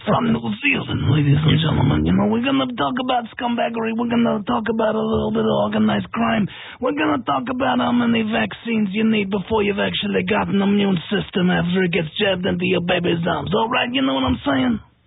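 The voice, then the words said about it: Put-on mafioso-style accent. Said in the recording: “you've got to say it almost in a mafioso type accent”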